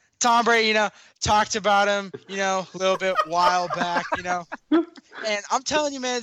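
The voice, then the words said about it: Nasal imitation of another person's voice. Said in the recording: “T-hole impersonation ... Nasally terrible.”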